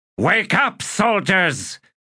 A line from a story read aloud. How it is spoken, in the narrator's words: he shouted